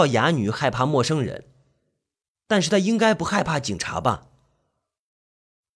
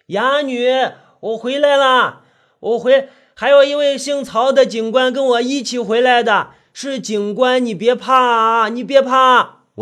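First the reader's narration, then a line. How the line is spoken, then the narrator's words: Loud shout. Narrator (Chinese): 我在前面大声喊着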